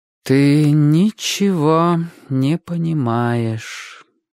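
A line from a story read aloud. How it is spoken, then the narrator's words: Mother's sigh. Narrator (Russian): вздохнула мать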